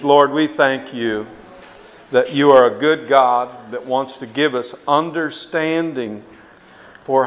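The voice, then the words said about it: American accent. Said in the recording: “I'm an American. Maybe you can tell that by my accent.”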